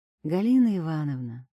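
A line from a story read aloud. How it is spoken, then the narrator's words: Soft, gentle. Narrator (Russian): сказала я мягко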